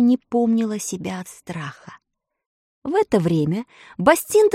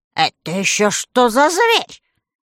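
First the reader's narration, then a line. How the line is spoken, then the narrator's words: Angry witch's question. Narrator (Russian): сердито спросила злая волшебница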